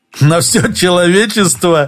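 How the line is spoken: Laughing. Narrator (Russian): Иванов рассмеялся

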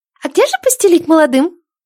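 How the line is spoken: Timid girl's squeak. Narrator (Russian): пискнул робкий девчончий голосишко с шестка

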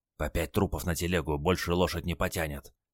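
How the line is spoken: Old man whispering. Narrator (Russian): шепнул дед

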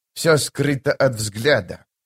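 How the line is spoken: Growled. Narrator (Russian): прорычала Хетен

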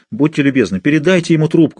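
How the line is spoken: Pleading. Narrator (Russian): взмолилась

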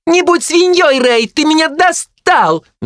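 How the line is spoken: Shrill piercing shriek. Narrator (Russian): взвизгнула она, да так противно, что в ушах резанула

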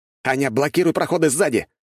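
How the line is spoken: Shout. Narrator (Russian): крикнул я

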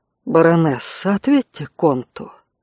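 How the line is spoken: Soft. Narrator (Russian): мягко произнес искореняющий

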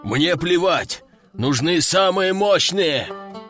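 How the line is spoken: Commander growling into radio. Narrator (Russian): рычал командующий в рацию

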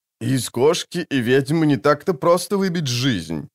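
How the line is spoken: Laughing. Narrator (Russian): засмеялся тот

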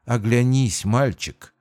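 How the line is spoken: Tender whisper. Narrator (Russian): ласково прошептала тьма

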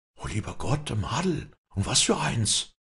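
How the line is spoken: Whispered. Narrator (German): flüsterte Leander

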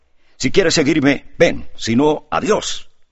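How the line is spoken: Shouting in Polish. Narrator (Spanish): gritó a Grushinka en polaco

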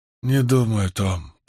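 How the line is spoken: Mumbled. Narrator (Russian): промямлила она

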